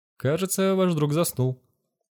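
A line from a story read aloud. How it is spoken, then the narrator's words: Calm remark. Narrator (Russian): спокойно заметила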